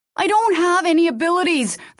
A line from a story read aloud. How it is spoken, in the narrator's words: the girl shouted